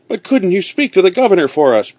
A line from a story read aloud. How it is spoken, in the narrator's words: begged one of the prisoners